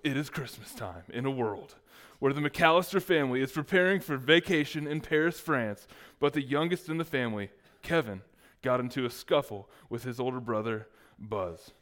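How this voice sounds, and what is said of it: Movie trailer announcer voice. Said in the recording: “That's not even a good movie trailer announcer voice.”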